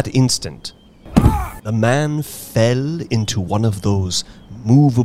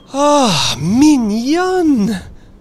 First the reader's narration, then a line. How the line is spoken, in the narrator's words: cried the soldier